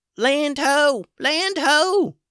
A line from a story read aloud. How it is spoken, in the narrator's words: a little voice called out